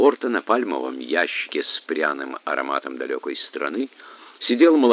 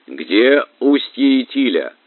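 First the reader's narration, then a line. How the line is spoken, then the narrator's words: Shout. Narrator (Russian): крикнул араб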